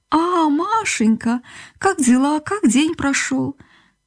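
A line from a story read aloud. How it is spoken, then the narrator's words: Sweet surprised voice. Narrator (Russian): лилейным голоском удивленно сказала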